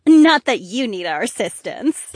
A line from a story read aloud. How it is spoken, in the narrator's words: Paulina giggled